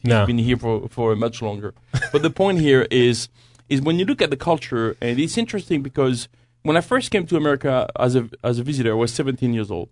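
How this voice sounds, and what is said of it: French accent. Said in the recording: “come from France. You can tell by my accent ... Is that what that accent is?”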